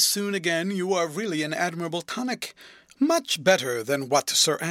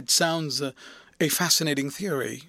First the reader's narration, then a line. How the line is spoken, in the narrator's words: she murmured